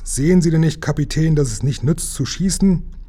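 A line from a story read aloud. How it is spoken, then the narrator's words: Called out. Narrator (German): rief Lukas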